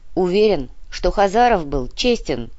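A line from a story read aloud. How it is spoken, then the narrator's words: Gloomy grumble. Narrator (Russian): хмуро проворчал Артем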